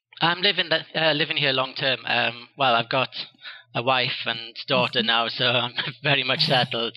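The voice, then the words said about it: Welsh British accent. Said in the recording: “I sense an accent, a pretty cool accent. ... it's a British accent, but I'm the Welsh part of Britain”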